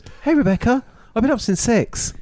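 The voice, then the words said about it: Put-on English girl's voice. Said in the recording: “Can I read it in my English voice? ... Your English voice? You mean your girl's voice? ... Yeah, English girl's voice.”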